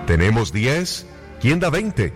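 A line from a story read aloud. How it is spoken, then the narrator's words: Auctioneer shouting. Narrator (Spanish): gritó el subastador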